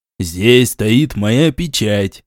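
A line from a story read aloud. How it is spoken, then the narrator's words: Grim. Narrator (Russian): мрачно ответил атаман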